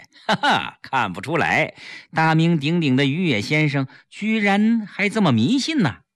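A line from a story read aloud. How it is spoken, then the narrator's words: Several laughing, teasing voices. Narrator (Chinese): 民主人士纷纷笑着批评于野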